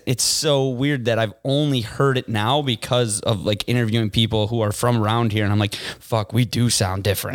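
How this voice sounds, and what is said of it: Chicago accent. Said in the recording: “I love the Chicago accent ... our accent is actually the biggest vowel shift in the English language ever. Like what we say with our as”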